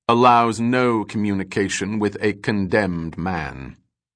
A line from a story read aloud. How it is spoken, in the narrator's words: said the Grand Master coldly